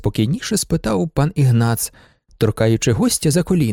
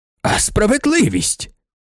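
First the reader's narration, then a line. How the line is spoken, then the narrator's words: Exclamation. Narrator (Ukrainian): вигукнув пан Ігнац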